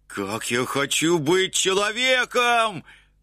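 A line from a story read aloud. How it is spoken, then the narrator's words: Exclaimed. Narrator (Russian): воскликнул он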